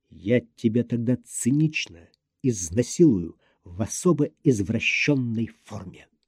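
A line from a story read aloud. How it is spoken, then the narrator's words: Sinister whisper. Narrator (Russian): сказал зловещим шепотом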